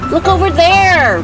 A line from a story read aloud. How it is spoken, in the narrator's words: Benedict shouted